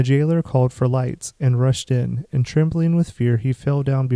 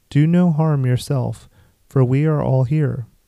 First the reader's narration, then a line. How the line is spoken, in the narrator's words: Paul cried with a loud voice